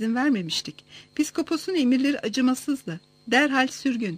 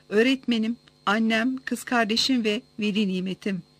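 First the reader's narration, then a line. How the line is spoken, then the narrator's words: Plain. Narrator (Turkish): dedi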